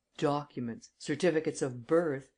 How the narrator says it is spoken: exclaimed the enemies of Rosaine

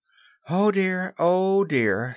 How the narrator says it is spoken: sighed Wendy

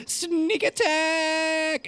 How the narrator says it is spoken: you hear someone shout

